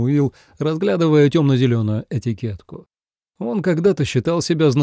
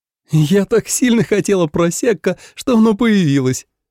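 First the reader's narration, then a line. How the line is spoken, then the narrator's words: Laughing. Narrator (Russian): смеялась Надя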